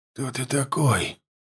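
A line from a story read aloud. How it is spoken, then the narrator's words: Weak, slightly hoarse question. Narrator (Russian): спросил Варда, чуть охрипшим от слабости голосом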